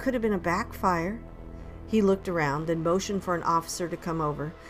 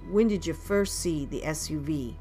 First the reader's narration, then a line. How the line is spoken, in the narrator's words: Deputy Adams asked